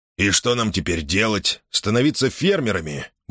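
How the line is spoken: Grumbling mutter. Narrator (Russian): буркнул Мейсон

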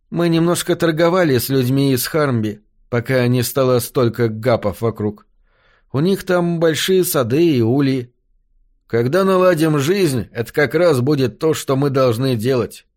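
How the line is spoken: Plain. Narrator (Russian): ответил я

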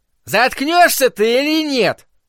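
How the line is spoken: Shouted. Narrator (Russian): крикнул Норм

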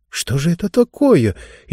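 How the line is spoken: Frightened whisper. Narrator (Russian): испуганно прошептала и Кейша

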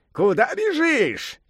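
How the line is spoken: Shouting. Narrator (Russian): кричал Сунь-Укун

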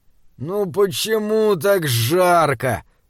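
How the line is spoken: Groan. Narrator (Russian): простонал Джеремия

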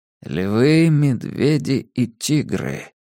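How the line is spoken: Muttered. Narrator (Russian): пробормотал Абеттик

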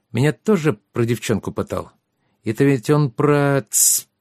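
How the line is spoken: Hissed. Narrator (Russian): прошипел Трикс

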